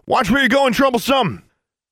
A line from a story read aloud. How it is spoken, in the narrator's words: cursed as he rolled out of the way and shouted